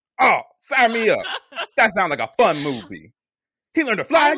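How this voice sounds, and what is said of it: Impression of a 90s moviegoer interviewee. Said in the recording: “doing an impression of, like, it's like someone that when they were like shooting like a 90s commercial where they would like go outside of the theater and be like, what'd you think of the film?”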